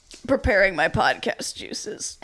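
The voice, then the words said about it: Imitates another person's voice. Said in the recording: “my impression of super cool guy ... Smoking weed cool on a podcast.”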